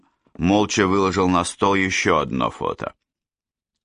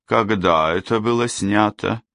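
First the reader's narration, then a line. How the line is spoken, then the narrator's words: Asked seriously, sadly. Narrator (Russian): Серьезно и почему-то грустно спросил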